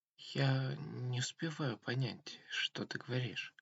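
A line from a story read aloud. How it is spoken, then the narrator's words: Sad complaint, girl. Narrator (Russian): пожаловалась девушка, но не капризно, а как-то грустно, будто ей очень хотелось все услышать и все понять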